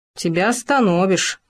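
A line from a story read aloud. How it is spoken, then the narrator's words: Snorting hmph. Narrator (Russian): хмыкнул Хома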